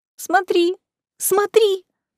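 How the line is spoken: Squeaking while held tight. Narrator (Russian): пропищала из железного захвата

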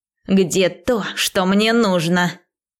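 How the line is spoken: Curt hiss, sorcerer. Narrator (Russian): без церемоний прошипел колдун

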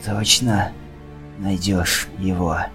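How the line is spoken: Hoarse question. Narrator (Russian): хрипло спросил Ришье

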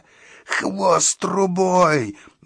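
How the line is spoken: Creature's howl. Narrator (Russian): взвыл растерзяк

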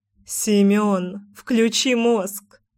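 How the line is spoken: Laughing. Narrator (Russian): хохотнула Мила

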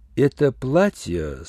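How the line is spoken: Plain. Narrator (Russian): спросил я

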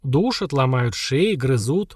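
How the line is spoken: Grim. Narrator (Russian): мрачно пояснил Антук

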